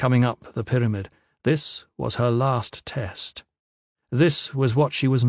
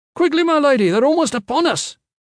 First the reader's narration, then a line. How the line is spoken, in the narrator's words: cried